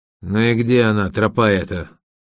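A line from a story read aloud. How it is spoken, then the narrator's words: Irritated question. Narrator (Russian): раздраженно спрашивает костыль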